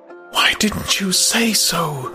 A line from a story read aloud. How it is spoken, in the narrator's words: She whispered